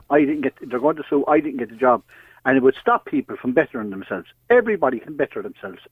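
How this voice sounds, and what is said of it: Thick Irish country accent. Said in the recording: “I have a fine, good country accent, haven't I? ... You're a good, thick country. ... Thick accent, yes.”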